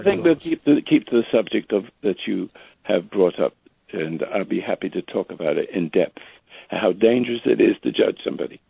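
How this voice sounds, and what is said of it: Slightly rough, congested voice. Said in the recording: “I have a little cold myself... my voice is a little rough.”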